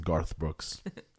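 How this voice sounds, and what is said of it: Put-on American accent. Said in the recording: “I'll use my American accent”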